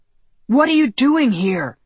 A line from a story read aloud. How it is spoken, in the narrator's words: Carl shouted